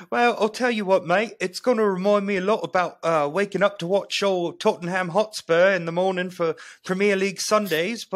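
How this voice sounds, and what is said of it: Put-on British accent. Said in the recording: “agreed to do the London preview in a British accent.”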